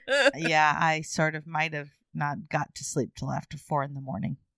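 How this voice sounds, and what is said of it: Tired, low, husky voice. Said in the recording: “I brought my sexy voice today ... Is it sexy voice or is it I'm too tired to function voice? It's a combination.”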